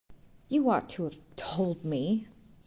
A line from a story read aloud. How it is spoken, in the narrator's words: gasped petulantly